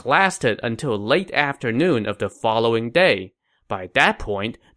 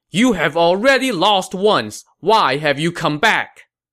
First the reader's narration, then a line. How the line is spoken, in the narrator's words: galloped forth and shouted